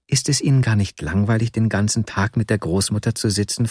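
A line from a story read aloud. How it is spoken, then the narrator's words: Plain question. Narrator (German): fragte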